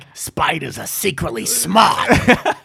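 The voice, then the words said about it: Stanley impression. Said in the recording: “my new Stanley impression”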